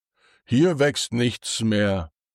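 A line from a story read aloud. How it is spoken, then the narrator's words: Plain. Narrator (German): sagt er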